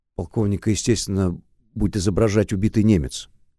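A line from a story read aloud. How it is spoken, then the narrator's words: Plain. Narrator (Russian): ответил Шубин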